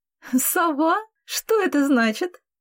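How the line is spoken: Laughing. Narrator (Russian): рассмеялась Катя

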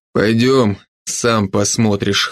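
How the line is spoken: Smirking. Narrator (Russian): хмыкнул Северский

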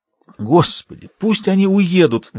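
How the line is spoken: Pleading. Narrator (Russian): взмолился он

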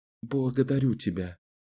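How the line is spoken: Soft. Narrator (Russian): мягко сказала она

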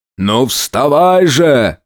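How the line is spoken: Shouting. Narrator (Russian): крикнул хозяин

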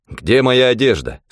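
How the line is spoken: Plain. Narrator (Russian): спросил я

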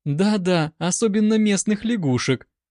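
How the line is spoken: Giggling agreement, woman. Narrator (Russian): подтвердила Елена, хихикая

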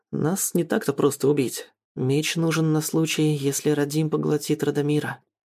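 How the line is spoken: Quiet comment. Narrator (Russian): тихо комментирует Мариан

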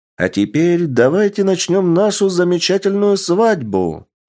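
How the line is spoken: Loud young woman. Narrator (Russian): громко сказала девушка

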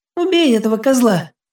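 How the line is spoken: Girl's shrill squeal. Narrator (Russian): взвизгнула девчонка

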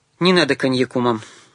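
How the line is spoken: Calm and firm. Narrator (Russian): спокойно и твердо сказал он

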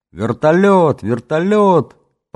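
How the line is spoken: Loud joyful boyish yell. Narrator (Russian): По-мальчишески громко и радостно заорал Ленька

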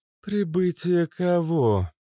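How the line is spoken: Dejected question. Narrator (Russian): упавшим голосом спросила Кобра

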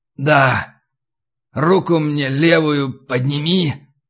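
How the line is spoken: Hoarse wheeze. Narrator (Russian): прохрипел Егор

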